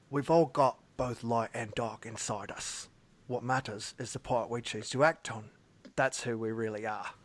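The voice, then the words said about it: Line drifting into Australian accent. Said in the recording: “that sounded Australian at the end.”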